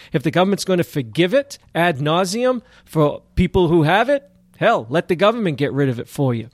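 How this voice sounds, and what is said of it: Sarcastic, facetious tone. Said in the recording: “I'm being a little facetious here. Granted, you can probably tell by my voice”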